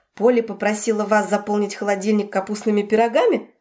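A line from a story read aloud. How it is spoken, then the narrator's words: Smirking snort. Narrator (Russian): хмыкнул Раф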